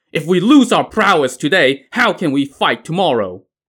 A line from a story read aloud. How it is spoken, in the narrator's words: a chieftain from Lu Junyi's army shouted